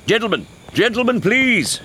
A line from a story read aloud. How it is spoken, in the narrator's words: Horatio shouted